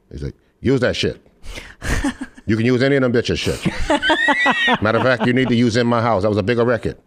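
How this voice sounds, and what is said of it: Imitates another person's voice. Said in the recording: “That was a great impression”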